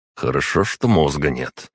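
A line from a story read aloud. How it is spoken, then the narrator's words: Muttered under breath. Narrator (Russian): пробурчал я себе под нос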